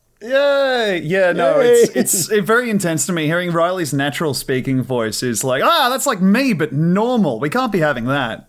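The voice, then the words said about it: Australian accent. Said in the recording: “The Australian accent is a deeply flawed way of communication, but it is all I have.”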